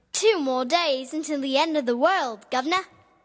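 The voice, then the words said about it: Child's put-on British accent. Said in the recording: “Oh, a dialect. ... she's doing character voices ... Very well done. ... walking around the house with the British accent and saying "governor" after every statement.”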